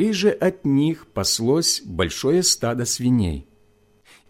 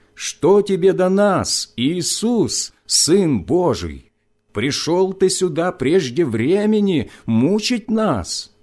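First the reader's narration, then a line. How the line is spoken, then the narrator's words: Many voices shouting. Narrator (Russian): они закричали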